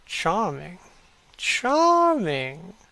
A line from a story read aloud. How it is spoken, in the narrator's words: Lord Henry murmuring